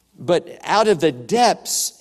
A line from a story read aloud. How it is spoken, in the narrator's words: he cried